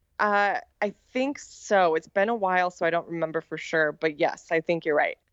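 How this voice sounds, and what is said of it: American accent. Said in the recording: “I have an American accent, so I'm sure we're both butchering it”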